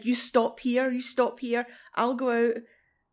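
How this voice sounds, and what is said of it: Put-on Yorkshire dialect. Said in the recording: “in the Yorkshire dialect”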